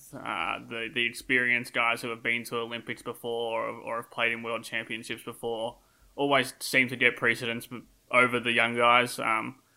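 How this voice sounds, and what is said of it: Australian accent. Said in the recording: “you can hear my Australian accent”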